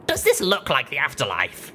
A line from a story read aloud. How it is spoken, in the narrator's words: I said with a snort